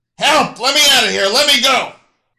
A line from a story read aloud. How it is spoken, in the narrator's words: He began to shout